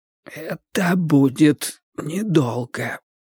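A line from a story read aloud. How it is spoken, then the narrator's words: Hoarse reply. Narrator (Russian): прозвучал сиплый ответ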